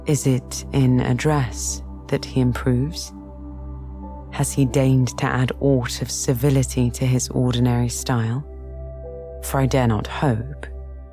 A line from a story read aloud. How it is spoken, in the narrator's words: he added in a grayer tone